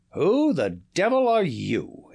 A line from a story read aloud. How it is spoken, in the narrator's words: he thundered